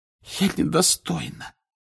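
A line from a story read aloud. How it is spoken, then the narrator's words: Hoarse voice. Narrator (Russian): хриплым голосом проговорила Флер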